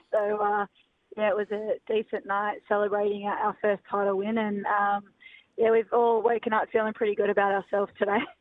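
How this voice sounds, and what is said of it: Hoarse, lost voice. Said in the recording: “As you can hear, I've lost my voice.”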